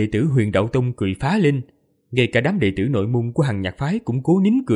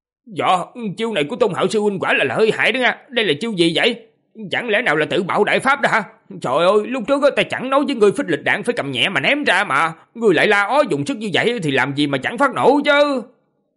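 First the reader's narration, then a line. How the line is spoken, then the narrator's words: Loud voice. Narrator (Vietnamese): lớn tiếng nói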